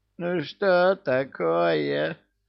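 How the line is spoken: Whimpering. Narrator (Russian): Захныкал домовой

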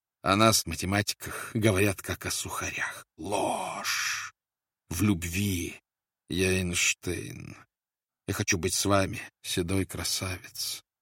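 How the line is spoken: Continuous whisper. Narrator (Russian): Она все время шептала ему

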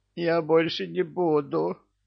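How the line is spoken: Pleading. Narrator (Russian): взмолился домовой

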